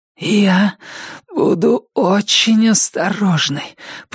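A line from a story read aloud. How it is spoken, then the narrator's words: Hoarse rasp. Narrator (Russian): прохрипела она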